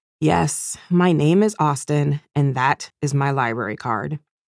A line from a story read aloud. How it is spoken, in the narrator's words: With a sigh too deep for my young years, I replied